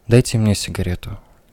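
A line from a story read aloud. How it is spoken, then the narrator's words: Flat, toneless woman. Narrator (Russian): бесцветным голосом произнесла женщина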